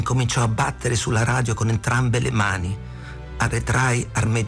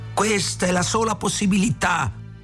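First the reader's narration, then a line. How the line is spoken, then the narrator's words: Yell. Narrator (Italian): urlò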